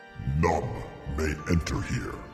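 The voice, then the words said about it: Deep character voice. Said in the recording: “replied in a deep voice.”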